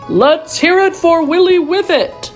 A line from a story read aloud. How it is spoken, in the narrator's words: shouted the mayor